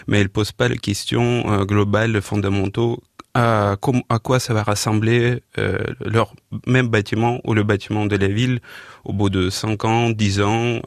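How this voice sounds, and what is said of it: Slight Ukrainian accent. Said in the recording (French): “Ukrainien, voilà. Non, mais ce qui explique ce petit accent”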